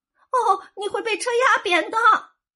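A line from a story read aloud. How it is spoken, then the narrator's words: Breathless after panting. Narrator (Chinese): 他喘了一会儿，才说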